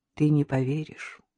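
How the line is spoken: Sad. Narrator (Russian): грустно сказала Надежда

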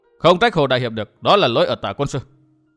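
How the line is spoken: Stern voice. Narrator (Vietnamese): Cung Hồng Hồng nghiêm giọng tiếp lời

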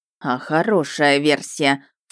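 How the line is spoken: Snorting. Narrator (Russian): фыркнул Ярый

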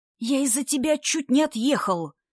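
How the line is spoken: Angry whisper. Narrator (Russian): разозлился на родственника Герасим шепотом

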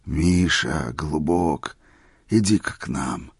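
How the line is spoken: Tender old man's call. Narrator (Russian): нежно позвал старик

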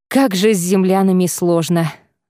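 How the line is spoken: Sighing man. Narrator (Russian): вздохнул мужчина

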